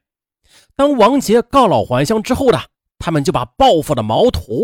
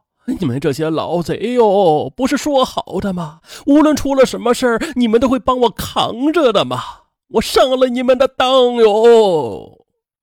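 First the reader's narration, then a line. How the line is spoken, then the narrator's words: Wailing, facing execution. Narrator (Chinese): 荀固 临斩前他哭喊道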